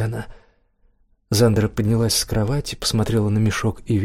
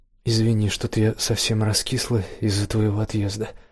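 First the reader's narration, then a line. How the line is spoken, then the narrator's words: Soft, gentle. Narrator (Russian): мягко сказала Зандра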